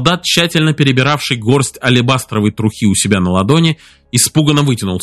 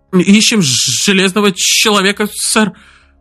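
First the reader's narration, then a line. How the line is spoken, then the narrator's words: Stammering. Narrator (Russian): Заикаясь, проговорил он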